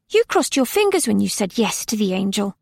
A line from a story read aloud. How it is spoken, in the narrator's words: Nona didn't know what to say, so she blurted